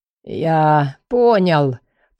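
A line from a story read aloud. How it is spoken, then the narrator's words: Hoarse. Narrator (Russian): прохрипел Лекс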